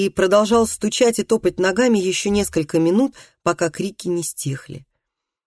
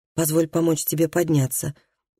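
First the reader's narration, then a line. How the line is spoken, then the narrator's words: Soft gentle voice. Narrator (Russian): мягко сказал он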